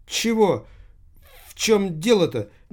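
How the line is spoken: Frightened young woman. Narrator (Russian): испуганно произнесла молодая женщина

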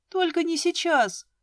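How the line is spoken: Pleading. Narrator (Russian): взмолилась я

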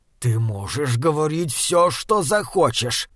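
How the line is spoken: Growling. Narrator (Russian): прорычал первый

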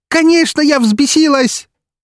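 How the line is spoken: Furious near-shout. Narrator (Russian): практически выкрикнула Настя с горящими от ярости глазами

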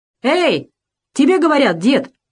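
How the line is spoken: Shouted, young soldier. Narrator (Russian): крикнул молодой солдат

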